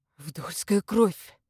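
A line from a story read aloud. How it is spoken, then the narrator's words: Breathed out. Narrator (Russian): выдохнул Игнат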